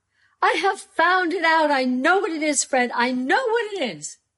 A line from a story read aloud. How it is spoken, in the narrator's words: the plump sister cried out